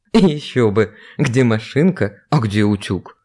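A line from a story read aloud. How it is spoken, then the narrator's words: Laughing. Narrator (Russian): засмеялся Андрей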